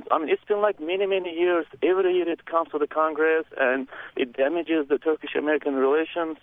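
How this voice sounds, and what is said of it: Turkish-accented English. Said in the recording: “a Turkish lilt in your accent”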